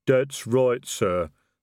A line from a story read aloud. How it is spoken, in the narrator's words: the troll rumbled